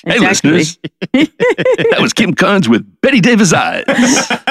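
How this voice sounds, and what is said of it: Radio DJ voice. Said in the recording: “put on my radio voice.”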